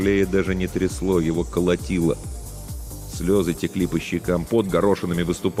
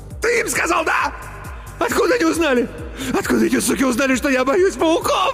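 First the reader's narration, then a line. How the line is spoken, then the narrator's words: Shrill squeal, choking. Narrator (Russian): Взвизгнул Иван и захлебнулся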